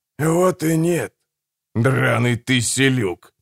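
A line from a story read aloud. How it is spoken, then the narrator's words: Through gritted teeth. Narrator (Russian): процедил Гегель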